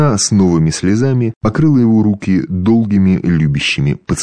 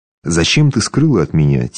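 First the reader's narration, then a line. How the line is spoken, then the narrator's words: Soft loving whisper. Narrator (Russian): тихо, но без укора любовно прошептал Бероев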